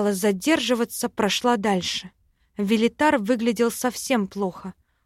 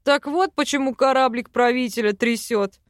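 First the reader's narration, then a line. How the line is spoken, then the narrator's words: Chuckling. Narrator (Russian): хохотнул Йоран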